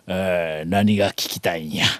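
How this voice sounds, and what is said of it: Very deep rumbling voice. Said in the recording (Japanese): “あのこう地獄の、地獄の底から響いてくるようなあのマスターの声で”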